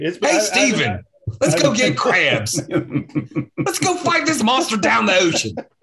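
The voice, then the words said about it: Put-on Baltimore accent. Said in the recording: “Do they have anybody show up with a Baltimore accent?”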